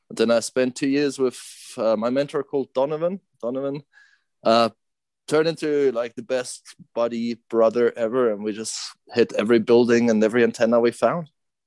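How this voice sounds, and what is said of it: Swiss accent with South African twang. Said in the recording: “South African twang amongst your Swiss accent”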